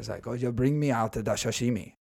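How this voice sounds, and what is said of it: Put-on Asian accent. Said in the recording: “I will do the Asian accent, just like I'm doing now.”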